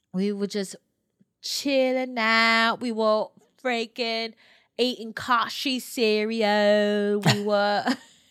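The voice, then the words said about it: Put-on accent. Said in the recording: “You can drop the accent now. ... I think I'm gonna keep it for the rest of the episode”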